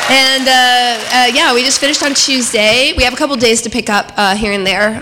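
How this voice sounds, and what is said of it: Slightly hoarse, partly lost voice. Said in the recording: “lost my voice a little bit”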